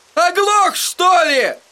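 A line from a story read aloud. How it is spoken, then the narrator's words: Barking shout. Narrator (Russian): гаркнул он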